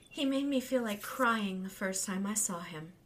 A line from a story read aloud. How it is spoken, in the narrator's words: Brandy Lynn told Weetsy with a sigh